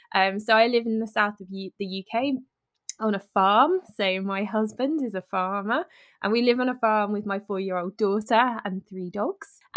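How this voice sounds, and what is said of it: British English accent. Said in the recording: “As you can tell, I am from the UK. The accent might give it away a little bit.”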